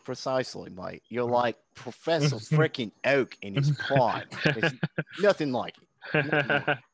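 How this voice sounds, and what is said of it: Put-on Australian accent. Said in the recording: “you do this voice on your streams, you're gonna get so many viewers. Like, just do that voice all the time ... I'll just move to Australia ... Just put Aussie plays.”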